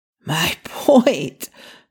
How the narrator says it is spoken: Ray said hoarsely

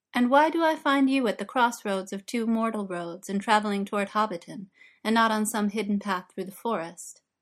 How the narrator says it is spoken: The elves laughed

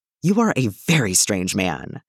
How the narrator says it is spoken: Danny hisses again

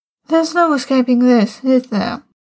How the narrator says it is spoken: John sighed

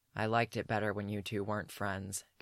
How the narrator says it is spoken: Geralt says flatly

